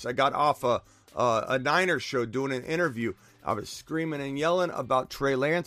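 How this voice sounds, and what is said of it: Hoarse, worn-out voice. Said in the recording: “I'm very hoarse. ... my voice is, you know, I've lost my voice. I've had my voice gone for like, I don't know, 3 weeks.”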